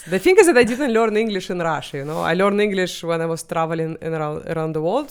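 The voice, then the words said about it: Russian-accented English. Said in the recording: “my English and my accent ... It's a great accent. You're pretty much the accent that I copy ... when I do a Russian accent, I think your voice is kind of the one that I do.”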